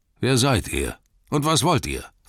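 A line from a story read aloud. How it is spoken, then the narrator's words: Gruff question. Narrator (German): fragte er barsch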